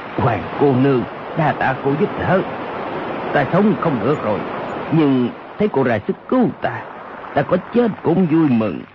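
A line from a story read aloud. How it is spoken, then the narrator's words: Lowered voice. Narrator (Vietnamese): Âu Dương Khắc hạ giọng nói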